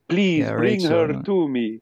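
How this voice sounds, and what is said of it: Vampire-like Eastern European accent. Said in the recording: “I don't know where that accent's from, but yeah, it's very vampire. ... I think it is meant to be a Romani traveler accent”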